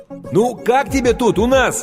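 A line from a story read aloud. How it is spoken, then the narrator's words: Shouted over loud din. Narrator (Russian): крикнул Стэн ей прямо в ухо, поскольку уровень грохота в зале неуклонно возрастал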